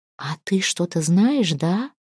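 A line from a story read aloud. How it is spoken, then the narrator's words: Whispering reply. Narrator (Russian): шептала в ответ Тюра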